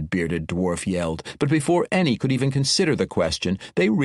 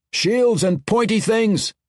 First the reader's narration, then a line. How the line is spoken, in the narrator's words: Orethio Spike shouted